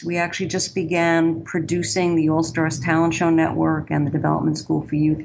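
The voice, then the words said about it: Bronx New York accent. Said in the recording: “We started in the Bronx, New York, which you probably can tell from my accent is where I'm originally from.”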